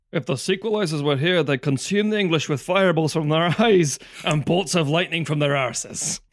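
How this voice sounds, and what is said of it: Mel Gibson's bad Scottish accent. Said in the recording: “silly Scottish accents ... I think you'll find that was an Australian accent ... for Mel Gibson is an Australian ... An American-Australian accent ... That accent is garbage from Mr. Gibson ... Bad accent from Mel Gibson”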